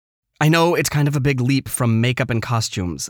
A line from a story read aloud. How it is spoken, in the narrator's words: I said quickly, embarrassed